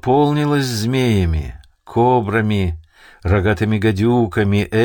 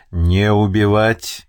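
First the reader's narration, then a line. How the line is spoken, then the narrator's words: Menacing warning. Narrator (Russian): грозно предупредил Даи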